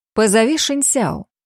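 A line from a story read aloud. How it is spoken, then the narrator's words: Plain. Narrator (Russian): сказала я служанке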